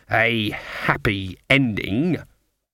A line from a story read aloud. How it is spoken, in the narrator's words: she spat the words